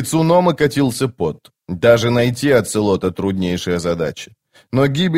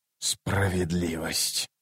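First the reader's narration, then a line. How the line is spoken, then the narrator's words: Furious whisper. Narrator (Russian): яростно прошептал Ном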